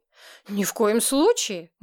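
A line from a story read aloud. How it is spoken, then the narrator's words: Heated exclamation. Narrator (Russian): горячо воскликнула я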